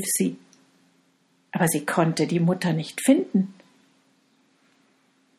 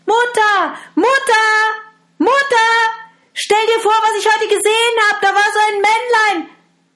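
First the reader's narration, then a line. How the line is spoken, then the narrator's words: Girl calling out excitedly. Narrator (German): als das Mädchen … da rief sie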